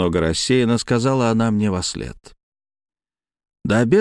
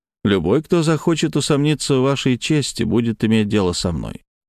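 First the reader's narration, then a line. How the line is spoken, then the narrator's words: Calm. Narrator (Russian): спокойно сказал я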